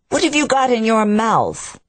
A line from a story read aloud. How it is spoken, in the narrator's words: he shouted